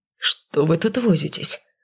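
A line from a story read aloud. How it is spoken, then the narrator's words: Grumbling. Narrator (Russian): проворчал он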